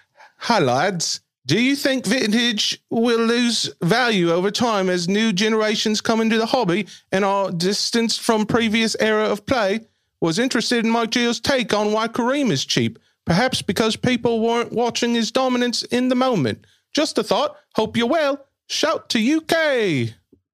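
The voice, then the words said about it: Reading in a put-on accent. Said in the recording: “he wants the accent.”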